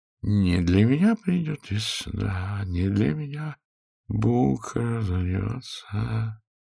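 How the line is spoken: Crooning softly. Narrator (Russian): мурлыкал странный субъект

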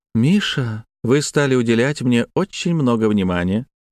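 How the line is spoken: Cooing. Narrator (Russian): проворковала

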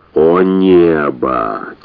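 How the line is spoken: Heavy sigh. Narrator (Russian): тяжко вздохнул Джеффри Крокодил

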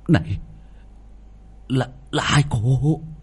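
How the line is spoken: Stammering. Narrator (Vietnamese): Quỷ binh lắp bắp

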